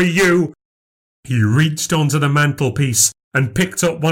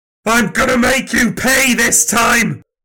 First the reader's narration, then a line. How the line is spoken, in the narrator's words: Nan screamed